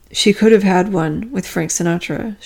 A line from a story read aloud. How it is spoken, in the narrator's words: she said